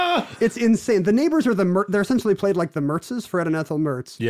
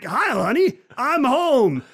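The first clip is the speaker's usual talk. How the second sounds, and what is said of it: Imitates another person's voice. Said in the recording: “He talks like Jackie Gleason.”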